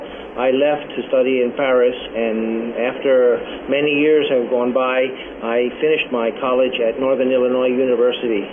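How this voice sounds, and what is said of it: Speaks with an acquired accent. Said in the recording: “you have an accent already”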